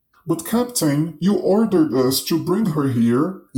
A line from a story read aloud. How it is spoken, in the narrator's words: yelled the pirate